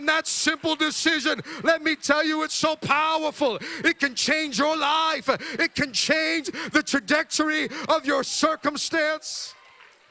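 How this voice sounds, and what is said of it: Shouting, loud excited preaching. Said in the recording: “sorry for shouting. I got to calm down.”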